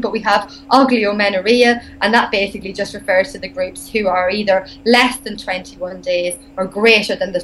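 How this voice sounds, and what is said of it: Irish accent. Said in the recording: “I hope I'm pronouncing this right with my Irish accent”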